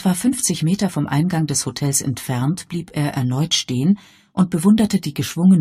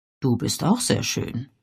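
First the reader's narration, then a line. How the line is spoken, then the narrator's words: Murmuring. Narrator (German): murmelte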